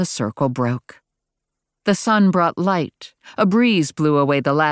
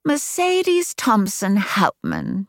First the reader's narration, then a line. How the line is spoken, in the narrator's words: she purred with one of her mercurial mood changes